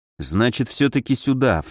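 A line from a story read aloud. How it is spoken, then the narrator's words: Low mutter. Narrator (Russian): в полголоса пробормотал я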